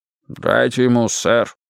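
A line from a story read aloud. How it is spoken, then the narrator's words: Calm boatswain speaking. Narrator (Russian): спокойно сказал боцман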